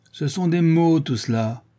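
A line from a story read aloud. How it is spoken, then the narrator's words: Emboldened shout. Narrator (French): cria le Charron, qui sentait le frisson du peuple derrière ses épaules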